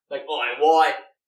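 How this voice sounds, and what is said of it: Put-on Australian accent. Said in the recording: “That sounds much more Australian. That sounds like Carl Urban from The Boys.”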